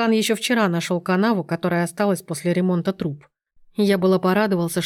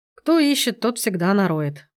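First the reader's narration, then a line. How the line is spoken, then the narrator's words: Sad reply. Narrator (Russian): печально отозвался Сергей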